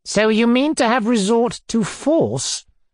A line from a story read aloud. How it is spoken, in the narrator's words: Foma asked haughtily